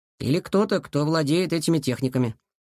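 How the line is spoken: Plain. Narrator (Russian): сказал Илья

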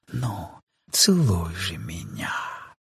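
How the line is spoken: Hurried whisper. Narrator (Russian): говорила поспешным шепотом

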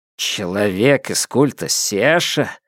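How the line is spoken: Mumbling head. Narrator (Russian): забормотала голова Темсы

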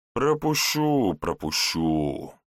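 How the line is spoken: Grumbling. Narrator (Russian): ворчал страж

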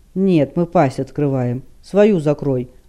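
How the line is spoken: Barked. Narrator (Russian): рявкнул Ханк

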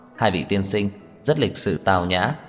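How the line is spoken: Smiling. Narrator (Vietnamese): mỉm cười nói

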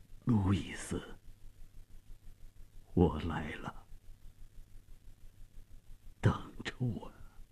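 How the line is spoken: Trembling, faint voice. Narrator (Chinese): 用颤抖而微弱的声音说

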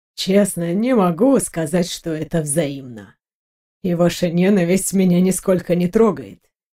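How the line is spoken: Calm. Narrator (Russian): спокойно проговорил Леандро

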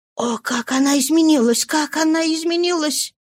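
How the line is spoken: Whispering. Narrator (Russian): прошептала Роза Миньон

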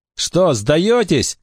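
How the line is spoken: Breathless shout. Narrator (Russian): крикнул им вслед запыхавшийся Саймон

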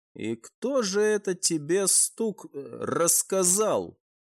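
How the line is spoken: Quiet grumble. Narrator (Russian): Тихонько пробурчал командор

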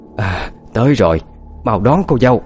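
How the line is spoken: Frail old woman's loud shout. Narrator (Vietnamese): Sức hét trái ngược với vẻ gầy gò, ốm yếu của bà

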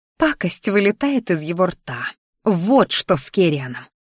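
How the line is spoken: Angry growl. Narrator (Russian): рычала я злобно

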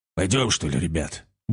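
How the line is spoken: Grumbling mutter. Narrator (Russian): буркнул он своим

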